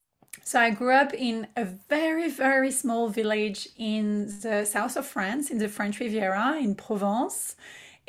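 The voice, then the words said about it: French accent. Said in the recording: “you can hear her beautiful accent. She is all the way from France”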